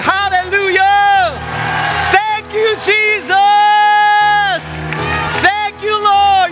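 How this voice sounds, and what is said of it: Loud shouted praise. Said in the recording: “let's express our worship to God in a loud voice”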